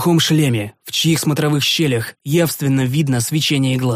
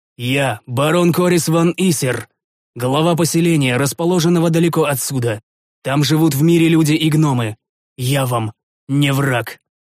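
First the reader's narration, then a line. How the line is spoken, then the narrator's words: Booming. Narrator (Russian): Прогудел я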